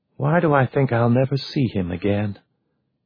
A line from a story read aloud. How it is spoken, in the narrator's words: the vice president was muttering, just loud enough to hear